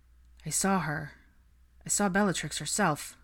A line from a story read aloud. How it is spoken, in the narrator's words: he stated flatly